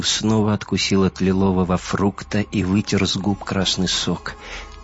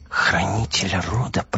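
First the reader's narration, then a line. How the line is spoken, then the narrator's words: Girl whispering. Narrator (Russian): прошептала девочка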